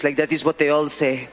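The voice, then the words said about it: Put-on accent of Montreal border guard. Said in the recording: “Is that accent offensive?”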